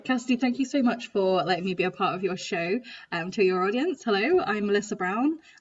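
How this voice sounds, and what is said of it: English Midlands accent. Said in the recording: “based in the Midlands of the UK. My accent might have been a bit of a giveaway”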